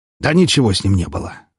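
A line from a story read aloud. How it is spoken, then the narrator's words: Snort. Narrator (Russian): хмыкнул он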